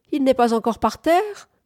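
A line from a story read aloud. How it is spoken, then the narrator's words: Small shrill voice. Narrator (French): demanda d'un bout de voix criarde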